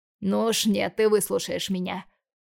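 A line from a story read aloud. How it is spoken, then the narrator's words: Growl. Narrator (Russian): рыкнул Бондарев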